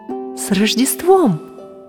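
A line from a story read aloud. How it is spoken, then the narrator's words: Exclamation. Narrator (Russian): воскликнула мама Снежика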